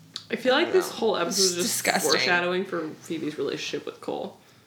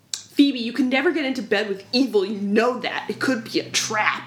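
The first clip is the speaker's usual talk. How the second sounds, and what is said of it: Imitates another person's voice. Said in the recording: “That was an amazing impression.”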